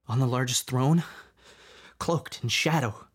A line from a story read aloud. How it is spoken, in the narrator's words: Finnegan whimpered